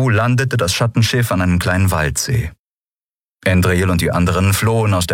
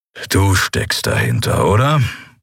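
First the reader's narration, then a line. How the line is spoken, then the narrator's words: Growled. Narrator (German): knurrte Keru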